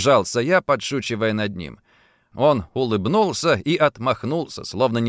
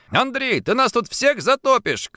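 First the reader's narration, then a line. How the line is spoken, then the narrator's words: Shout suppressing laughter. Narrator (Russian): крикнул я, изо всех сил сдерживая смех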